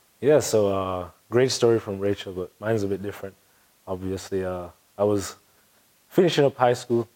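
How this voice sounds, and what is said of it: Jamaican accent. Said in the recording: “you have that wonderful Jamaican accent”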